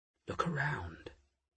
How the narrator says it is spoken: she muttered

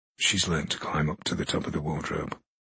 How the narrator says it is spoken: Eric said quietly

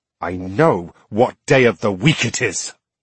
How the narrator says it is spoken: Ford Croft snapped

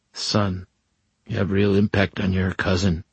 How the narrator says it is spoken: Don Antonio whispered

